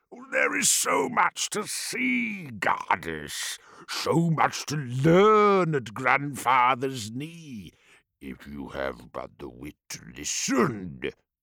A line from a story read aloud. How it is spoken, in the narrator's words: Bolothrax boomed